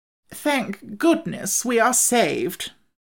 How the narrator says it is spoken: the Wogglebug heaved a deep sigh of relief as he exclaimed

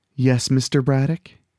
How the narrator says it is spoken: answering in a breathy voice

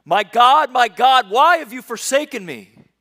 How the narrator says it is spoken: He screams it

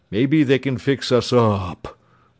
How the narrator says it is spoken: rumbled the lion

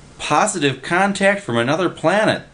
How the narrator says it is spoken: the guy was yelling

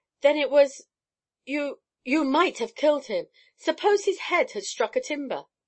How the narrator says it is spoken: said in a shocked voice

